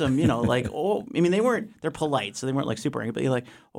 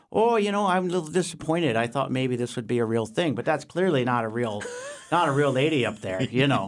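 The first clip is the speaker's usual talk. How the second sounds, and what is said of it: Put-on rural Minnesota accent. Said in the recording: “there's a lot of rural Minnesota people there, too. ... So you got to get the accent right.”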